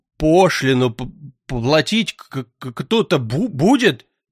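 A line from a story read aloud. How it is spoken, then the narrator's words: Wheezy, stuffy-nosed. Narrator (Russian): просипел он, хлюпая простуженным носом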